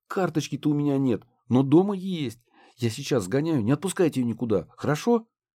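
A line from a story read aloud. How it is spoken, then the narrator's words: Agitated mumbling woman. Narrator (Russian): Взволнованно пробормотала блондинка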